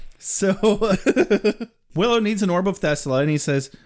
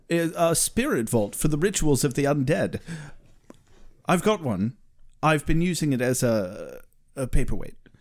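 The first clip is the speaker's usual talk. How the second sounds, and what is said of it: Giles's accent, done well. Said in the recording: “Giles is like ... you do the accent well enough that it pleases me”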